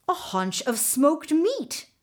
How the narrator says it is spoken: Mingo exclaimed

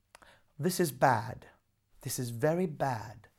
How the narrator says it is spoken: said the Duke's daughter with a sigh

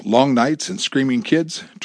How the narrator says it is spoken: Tracy asked in a joking tone

